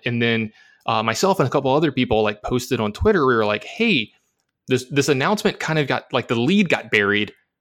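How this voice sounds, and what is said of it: Excited, hyped-up voice. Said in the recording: “I'm like super hyped. I don't know if you could hear it in my voice.”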